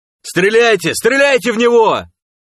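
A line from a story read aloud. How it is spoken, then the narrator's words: Screaming. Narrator (Russian): завопил Сом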